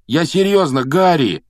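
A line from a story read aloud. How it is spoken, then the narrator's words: Pleading. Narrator (Russian): взмолился Рон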